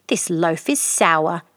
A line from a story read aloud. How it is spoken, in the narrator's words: he said angrily